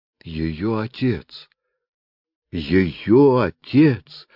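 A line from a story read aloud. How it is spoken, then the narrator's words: Old man's moan. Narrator (Russian): простонал старик-врач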